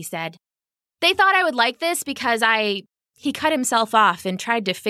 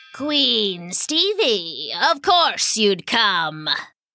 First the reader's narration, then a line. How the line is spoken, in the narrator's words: sneered Warvalo the wizard